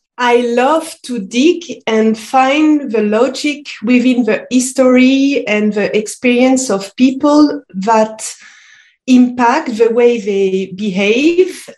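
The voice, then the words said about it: French-accented English. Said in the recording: “as you might hear, I am uh, speaking French and come from Lyon, France.”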